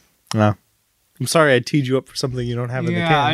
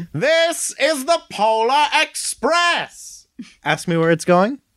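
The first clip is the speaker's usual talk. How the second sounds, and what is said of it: Screaming imitation of another person's voice. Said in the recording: “how I used to do a really good Tom Hanks screaming to the North Pole”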